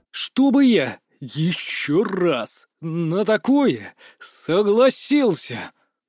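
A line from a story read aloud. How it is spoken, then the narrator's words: Hissing. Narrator (Russian): прошипел я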